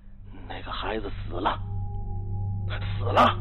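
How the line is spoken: Quiet. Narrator (Chinese): 他小声说

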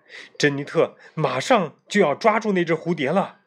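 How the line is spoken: Shouting. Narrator (Chinese): 菲比喊起来

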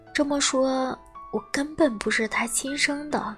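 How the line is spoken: Hoarse, restrained question. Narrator (Chinese): 我努力控制住自己 哑声地问道

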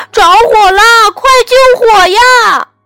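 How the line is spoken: Frightened shout. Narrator (Chinese): 小猪吓坏了，大叫

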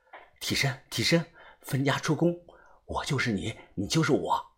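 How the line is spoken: Quiet muttering. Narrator (Chinese): 我低头小声的念叨

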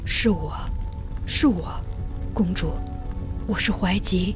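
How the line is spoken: Soft whisper. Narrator (Chinese): 在他耳边轻声说

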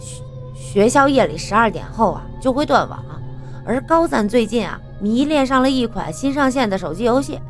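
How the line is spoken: Faint smile, explaining. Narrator (Chinese): 吕松淡淡一笑，向陈潇解释说

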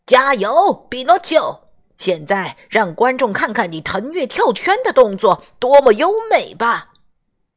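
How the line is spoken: Shouting. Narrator (Chinese): 他 喊道

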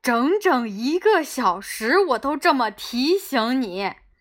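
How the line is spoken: Sighing. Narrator (Chinese): 贝托佐警长叹气

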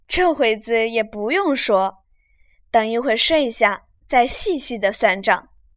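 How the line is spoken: Laughing. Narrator (Chinese): 宝玉笑道

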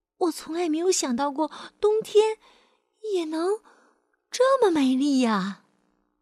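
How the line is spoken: Surprised exclamation. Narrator (Chinese): 安娜吃惊的感叹说

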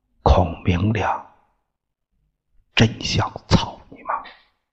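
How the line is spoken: Whispered. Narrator (Chinese): 县长凑近镇长的耳朵上，悄声音说道

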